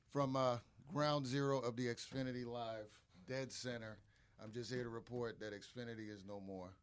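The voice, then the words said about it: Strained, damaged voice. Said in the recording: “my voice is all screwed up... my voice is all screwed up... Don't mind my voice.”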